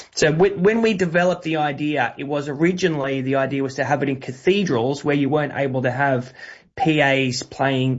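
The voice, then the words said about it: Australian accent. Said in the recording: “you can hear from my voice that I am Australian.”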